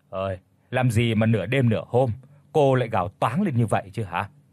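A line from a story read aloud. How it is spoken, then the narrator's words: Gruff deep question. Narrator (Vietnamese): Người đàn ông tên Thuận đã cất giọng ồm ồm hỏi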